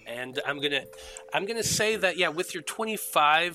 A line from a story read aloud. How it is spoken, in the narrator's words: the Spine Devil yells back